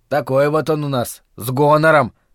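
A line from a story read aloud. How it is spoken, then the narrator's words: Snorting. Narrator (Russian): хмыкнул Доб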